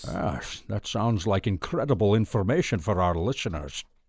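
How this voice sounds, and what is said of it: James Bond style impression. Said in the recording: “worst James Bond impersonation ... That sounds absolutely nothing like James Bond ... Is that a little better?”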